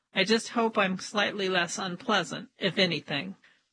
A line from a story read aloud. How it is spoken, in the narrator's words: says with a resigned laugh